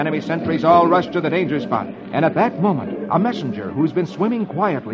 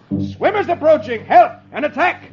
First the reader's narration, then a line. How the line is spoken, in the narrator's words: An enemy sentry, seeing the wine jugs bobbing in the water, thinks it's a head of soldiers wearing helmets, and he yells